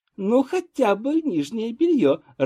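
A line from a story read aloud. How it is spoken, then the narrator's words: Laughing. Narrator (Russian): рассмеялась Елена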